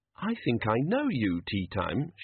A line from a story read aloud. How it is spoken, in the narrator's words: she said, as sweetly as she could, for Banjo's sake